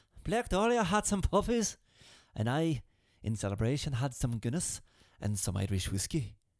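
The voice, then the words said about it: Bad put-on Irish accent. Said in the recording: “that was a horrible Irish accent.”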